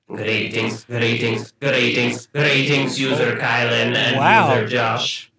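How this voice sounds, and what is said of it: Robot voice with vague European accent. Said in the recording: “Patreon bot, did you update your language program? ... vaguely European ... you sound a little Irish. ... Vaguely European. ... No, I am more Scandinavian.”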